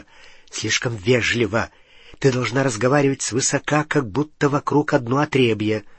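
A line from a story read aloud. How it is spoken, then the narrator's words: Whisper in ear. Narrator (Russian): Гарри зашептал ей в ухо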